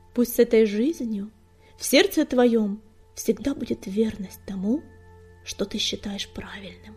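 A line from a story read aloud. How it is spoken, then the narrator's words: Tender cooing. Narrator (Russian): нежно проворковала она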